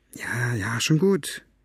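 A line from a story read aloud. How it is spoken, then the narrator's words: Murmur. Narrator (German): murmelte sie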